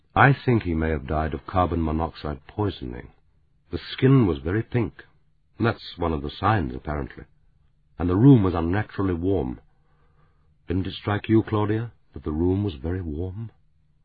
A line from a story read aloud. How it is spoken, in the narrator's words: He said quietly